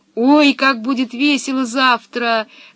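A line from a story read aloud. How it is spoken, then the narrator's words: Delighted squeal. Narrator (Russian): завопил от восторга Томми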